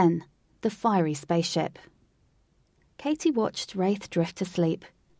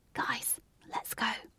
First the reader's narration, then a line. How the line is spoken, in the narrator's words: whispered